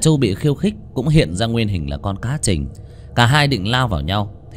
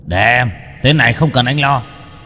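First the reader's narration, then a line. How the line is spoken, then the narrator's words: Dragon growling. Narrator (Vietnamese): Du hóa thành giao long mà gầm gừ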